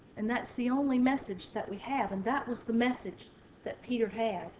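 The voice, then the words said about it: Southern American accent. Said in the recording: “mine may have a southern accent”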